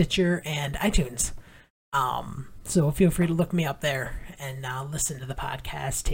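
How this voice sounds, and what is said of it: Usual voice. Nothing is said of it.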